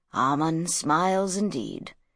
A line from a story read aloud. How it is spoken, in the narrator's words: murmured Sheftu